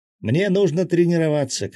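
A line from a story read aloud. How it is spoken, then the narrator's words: Shouted. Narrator (Russian): крикнула Мила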